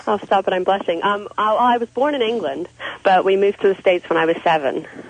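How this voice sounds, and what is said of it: English accent. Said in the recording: “your accent is so hot”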